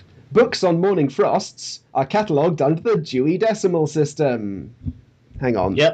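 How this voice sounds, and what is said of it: Usual voice. Nothing is said of it.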